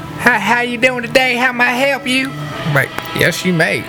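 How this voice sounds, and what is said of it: Put-on North Carolina country accent. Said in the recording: “They got that real country going. ... That North Carolina accent.”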